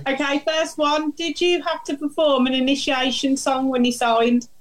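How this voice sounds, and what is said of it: Birmingham (Brummie) accent. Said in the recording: “my Brummy accent”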